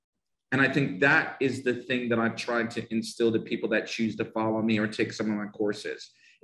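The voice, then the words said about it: Northern New Jersey accent. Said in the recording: “I have a Northern Jersey accent”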